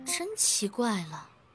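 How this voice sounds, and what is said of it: Quiet muttering under breath. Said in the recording (Chinese): “小声嘀咕着”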